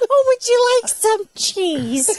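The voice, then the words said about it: Old lady character voice. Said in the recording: “do the old lady voice”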